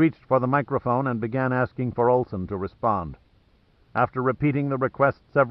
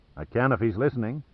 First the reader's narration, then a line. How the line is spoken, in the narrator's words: replied the sheriff